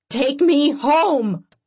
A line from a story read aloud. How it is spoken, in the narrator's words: I scream